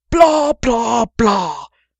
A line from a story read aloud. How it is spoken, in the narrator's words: shouted Sherlock